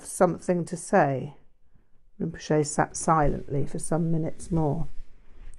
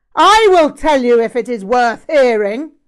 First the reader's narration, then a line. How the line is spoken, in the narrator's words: Rinpoche shouted